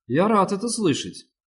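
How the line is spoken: Dry. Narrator (Russian): сказал сухо Руис

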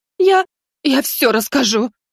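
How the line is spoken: Choking sobs. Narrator (Russian): захлебываясь рыданиями

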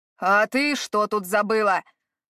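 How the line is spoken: Barked. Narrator (Russian): рявкнул на нее хозяин

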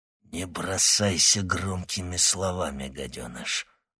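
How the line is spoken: Spiteful, through teeth. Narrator (Russian): злобно процедил Владимир Штерн

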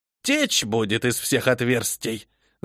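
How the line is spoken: Malicious smirking. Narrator (Russian): Злобно ухмыльнулась я

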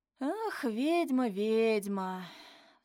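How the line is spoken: Smiling sigh. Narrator (Russian): вздохнул Вадим, наверняка с улыбкой

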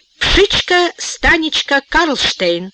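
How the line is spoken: Cheerful announcement over microphone. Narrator (Russian): весело сообщил машинист в микрофон

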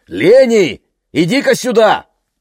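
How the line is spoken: Shouting. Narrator (Russian): крикнул

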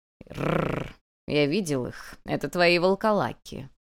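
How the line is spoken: Stubborn growl, cat. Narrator (Russian): упрямо прорычал кот

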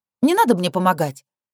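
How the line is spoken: Sharp dismissal. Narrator (Russian): резко отфутболиваю обоих

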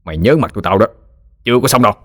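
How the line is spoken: Resentful growl. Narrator (Vietnamese): Tên đại ca gằn giọng ấm ức

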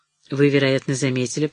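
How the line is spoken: Even, steady voice. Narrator (Russian): продолжал Летто все тем же ровным голосом

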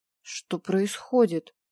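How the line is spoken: Strained, forced out. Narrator (Russian): наконец выдавил 1-й

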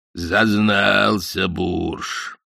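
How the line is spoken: Low rumbling bass, phone. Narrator (Russian): говорил Йеннеке своим низким ракочущим басом по телефону

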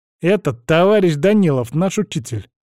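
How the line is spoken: Stern. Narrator (Russian): строго сказал Тимка

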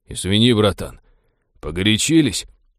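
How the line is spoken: Muttered. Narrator (Russian): пробормотал маг

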